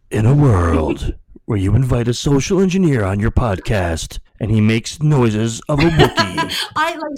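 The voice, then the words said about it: Dramatic movie trailer announcer voice. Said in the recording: “I have my movie announcer voice ... the movie announcer is like”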